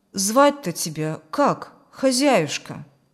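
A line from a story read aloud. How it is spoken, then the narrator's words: Plain. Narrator (Russian): спросил Юрген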